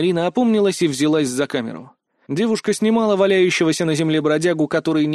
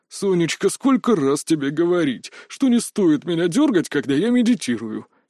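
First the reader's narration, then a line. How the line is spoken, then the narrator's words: Angry grumble. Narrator (Russian): сердито буркнул мужчина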